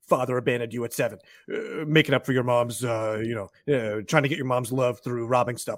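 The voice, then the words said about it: Imitates another person's voice. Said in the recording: “You've been working on your Dwayne Johnson impression.”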